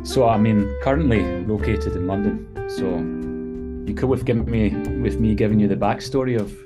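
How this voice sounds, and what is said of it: A distinctive accent. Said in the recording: “I love this gentleman's accent”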